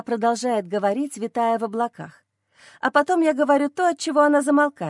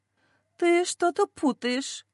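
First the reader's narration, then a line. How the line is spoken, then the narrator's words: Uncertain mother. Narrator (Russian): неуверенно произносит мама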